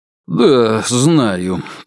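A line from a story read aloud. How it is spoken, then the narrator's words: Drawling. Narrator (Russian): протянул Вяземцев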